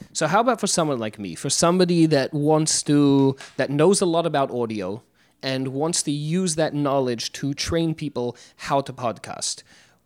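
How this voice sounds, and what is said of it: English accent, elegant and professional. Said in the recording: “with your English accent, you won't sound pushy. You'll just sound very elegant and professional.”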